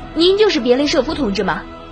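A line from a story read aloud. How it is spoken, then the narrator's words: Eager young man asking. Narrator (Chinese): 年轻小伙子急忙，迫不及待地问道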